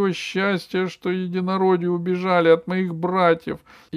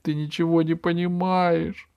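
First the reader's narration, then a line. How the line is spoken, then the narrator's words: Tearful squirrel speaking. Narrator (Russian): заговорила сквозь слезы белка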